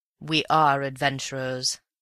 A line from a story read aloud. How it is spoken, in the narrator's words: said Raffles gravely